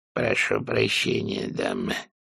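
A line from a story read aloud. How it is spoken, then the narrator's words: Muttering. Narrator (Russian): пробормотал он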